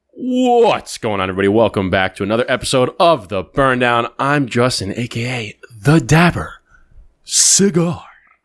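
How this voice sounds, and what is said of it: Radio announcer persona voice. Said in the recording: “the new radio voice, the persona of the radio voice.”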